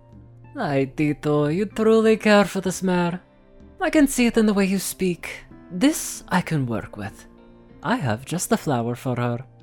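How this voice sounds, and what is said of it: Attempted Spanish accent, drifting off. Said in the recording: “I don't know what I was doing with that accent. I tried to do Spanish, but I, for some reason, went into a completely different accent”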